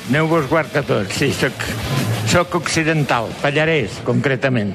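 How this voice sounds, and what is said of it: Lleida Catalan accent. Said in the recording (Catalan): “amb accent de Lleida”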